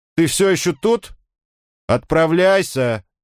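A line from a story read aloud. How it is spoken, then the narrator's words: Shouted from above. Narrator (Russian): крикнул Орфей сверху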